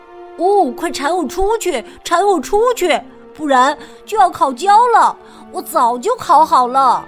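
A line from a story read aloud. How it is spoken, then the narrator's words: Shouting. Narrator (Chinese): 面包喊道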